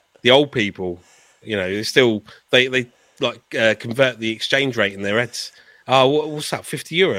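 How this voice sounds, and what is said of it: English accent. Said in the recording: “they'll know I've got an English accent”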